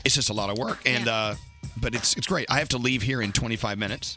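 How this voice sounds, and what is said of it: Strained, weak, fading voice. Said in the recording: “my voice is like barely hanging in there. ... It's limping. ... It's limping. ... my tires are losing air”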